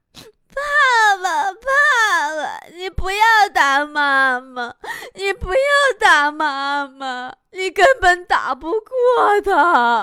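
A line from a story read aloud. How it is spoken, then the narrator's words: Child crying and shouting. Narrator (Chinese): 他小儿子就一直哭，一边哭还一边喊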